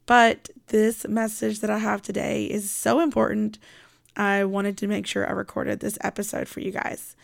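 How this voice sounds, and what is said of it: Voice sounds funny, a little off. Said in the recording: “My throat, my voice sounds kind of funny, but it's just allergy season... my voice does sound kind of a little off... does it sound weird? Yes, it probably does.”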